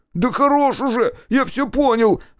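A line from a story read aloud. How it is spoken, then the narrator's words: Shrill squeal. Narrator (Russian): взвизгнул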